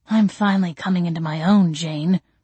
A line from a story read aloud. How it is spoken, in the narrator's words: he growled